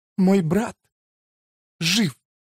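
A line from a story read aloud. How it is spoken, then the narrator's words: Sobbing. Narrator (Russian): прорыдала она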